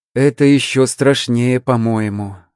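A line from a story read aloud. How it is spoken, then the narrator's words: Sighing. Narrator (Russian): вздохнув, произнесла Рина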